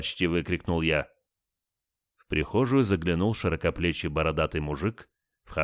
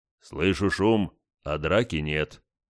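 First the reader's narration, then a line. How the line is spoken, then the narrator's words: Deep bass voice. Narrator (Russian): пробасил гость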